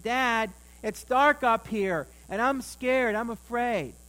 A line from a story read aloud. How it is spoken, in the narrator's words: he called out to his dad downstairs and he said